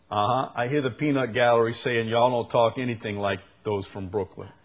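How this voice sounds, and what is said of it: New Orleans Yat accent, Brooklyn-like. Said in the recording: “if you a Yat, if you're from New Orleans ... You don't talk like anybody except maybe people in Brooklyn a little bit. Sound a little bit like you might be from Brooklyn ... you can't hide the accent”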